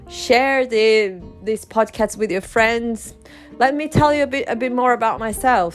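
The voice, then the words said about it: Brazilian Portuguese accent. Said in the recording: “you can notice my accent i am from brazil i'm brazilian”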